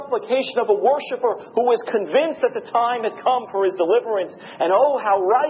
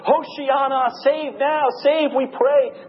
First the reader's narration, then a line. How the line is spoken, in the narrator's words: they shout